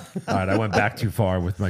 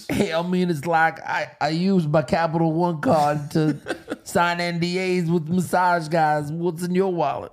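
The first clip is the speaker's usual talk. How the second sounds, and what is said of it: Imitates another person's voice. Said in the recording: “my John Travolta impression”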